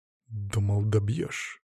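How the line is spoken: Hissed through teeth, in ear. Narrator (Russian): процедил я ему прямо в ухо

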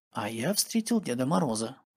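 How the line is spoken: Guilty quiet whisper. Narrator (Russian): Денис, чувствуя себя виноватым, тихонько на ушко сказал

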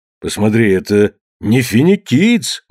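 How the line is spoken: Exclamation. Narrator (Russian): воскликнул старший

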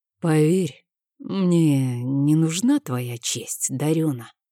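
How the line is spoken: Uncertain, quiet. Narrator (Russian): сказал он это как-то неуверенно и тихо

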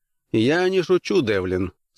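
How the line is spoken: Calm. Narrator (Russian): спокойно ответил Хант

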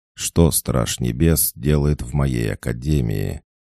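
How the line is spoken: Seemingly calm and lazy. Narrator (Russian): Ректор говорил как будто спокойно и лениво

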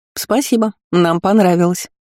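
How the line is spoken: Defiant snort. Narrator (Russian): вызывающе фыркнула Магиня

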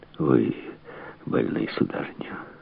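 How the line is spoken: Sympathetic tone. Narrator (Russian): сказал он сочувствующим тоном

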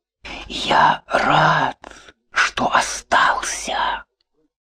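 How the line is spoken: Whisper. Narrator (Russian): Ян вздрогнул и прошептал

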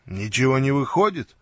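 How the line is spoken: Plain. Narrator (Russian): сказал я

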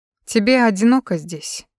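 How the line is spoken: Sighing. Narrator (Russian): вздохнул Сакума

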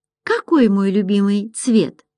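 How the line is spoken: Plain. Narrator (Russian): спросила Майя

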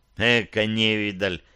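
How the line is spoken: Contemptuous mutter. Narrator (Russian): презрительно буркнул Борс

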